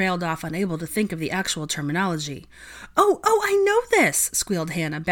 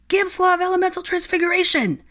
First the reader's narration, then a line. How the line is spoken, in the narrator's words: Draco bellowed